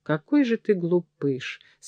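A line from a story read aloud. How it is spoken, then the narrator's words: Smiling through tears. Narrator (Russian): сказала маркетанка, улыбаясь сквозь слезы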